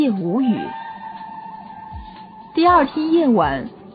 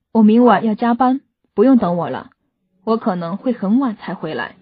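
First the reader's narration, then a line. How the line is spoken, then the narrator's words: Heavy sigh. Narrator (Chinese): 周先生重重的叹了口气，对妻子说道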